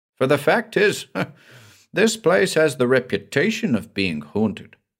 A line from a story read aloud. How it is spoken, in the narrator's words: Smeaton with a laugh